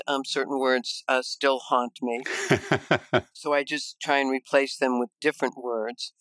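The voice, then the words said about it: Chicago Midwestern accent. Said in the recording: “you can probably tell with my accent that I am from Chicago, from the Midwest”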